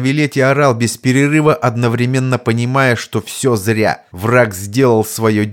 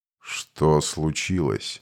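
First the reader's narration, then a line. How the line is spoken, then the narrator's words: Lazy inquiring voice. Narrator (Russian): Ленивым голосом поинтересовался маг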